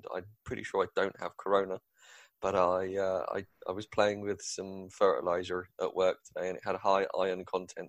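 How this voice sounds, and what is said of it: Slightly nasal, congested voice. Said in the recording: “apologise if I sound a little nasal today ... So if I sound terrible”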